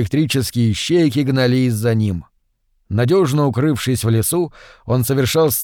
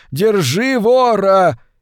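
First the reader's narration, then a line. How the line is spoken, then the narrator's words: Robots shouting after. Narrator (Russian): привратники-роботы кричали вслед ему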